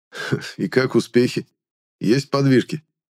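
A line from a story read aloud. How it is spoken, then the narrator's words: Ironic snort. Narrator (Russian): иронично хмыкнул Финир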